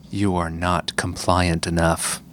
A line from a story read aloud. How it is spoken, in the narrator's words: You hear a voice whisper in your mind